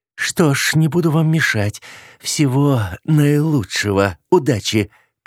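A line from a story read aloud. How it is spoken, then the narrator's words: Through gritted teeth. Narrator (Russian): процедила мама Эвы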